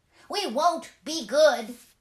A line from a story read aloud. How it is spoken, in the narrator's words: they cried